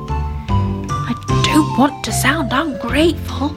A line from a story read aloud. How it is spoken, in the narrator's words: he whispered to Granny Ted